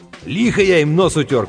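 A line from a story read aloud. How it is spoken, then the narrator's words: Shout. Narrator (Russian): крикнул Сэм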